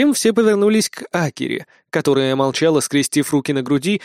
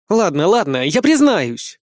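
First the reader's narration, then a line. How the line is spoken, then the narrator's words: Barking under pressure. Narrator (Russian): рявкнула черноволосая азиаточка, не выдержав наших взглядов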